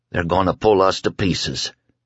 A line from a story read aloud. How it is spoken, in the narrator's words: he said in a dry voice